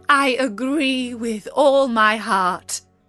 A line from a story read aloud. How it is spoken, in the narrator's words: cried the Queen